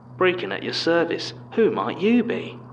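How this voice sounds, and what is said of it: Broad cartoonish Cockney accent. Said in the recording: “he spoke in a broad, cartoonish Cockney that I assumed must have been a mocking impression of my own voice”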